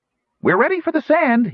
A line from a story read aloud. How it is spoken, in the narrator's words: cried